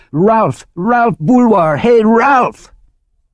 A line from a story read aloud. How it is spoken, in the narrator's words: yelled